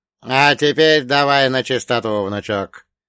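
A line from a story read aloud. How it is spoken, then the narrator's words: Creaky, suddenly serious. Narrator (Russian): проскрипел, внезапно став предельно серьезным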